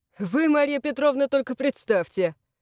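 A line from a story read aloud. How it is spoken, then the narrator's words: Sudden chuckle. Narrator (Russian): хохотнул вдруг Игнат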